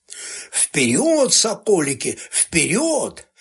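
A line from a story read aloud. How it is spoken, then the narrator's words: Strained asthmatic wheeze. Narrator (Russian): хрипел с астматическим надрывом Боголюбов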